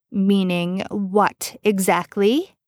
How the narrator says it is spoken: Dean snarled

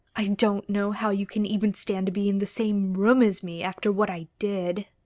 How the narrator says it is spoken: Dean said softly

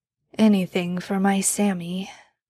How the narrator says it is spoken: Dean mumbled as he started to drift off to sleep

